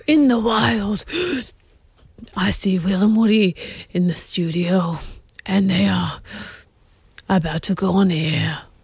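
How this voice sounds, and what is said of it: Breathy David Attenborough impression. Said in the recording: “your best David Attenborough impersonation ... Quite breathy”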